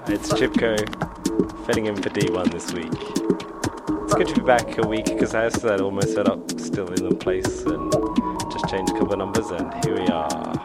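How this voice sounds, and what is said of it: Unusually deep voice. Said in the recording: “I like my deep voice, but I am feeling a lot better.”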